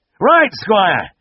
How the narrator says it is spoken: the farmer cried

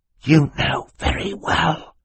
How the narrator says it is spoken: Klaus hissed to his sister

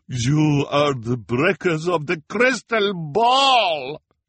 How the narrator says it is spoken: she bellowed

